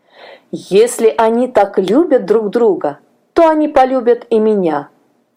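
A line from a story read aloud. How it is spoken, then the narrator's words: Plain. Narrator (Russian): ответил господин Винтер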